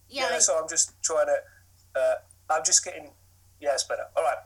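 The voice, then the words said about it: Strong South London English accent. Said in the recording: “I actually do have a strong accent... you've got a very strong London accent... I come from South London”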